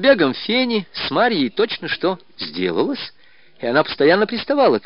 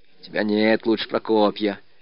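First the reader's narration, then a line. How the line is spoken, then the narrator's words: Grumbling. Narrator (Russian): ворчала Марья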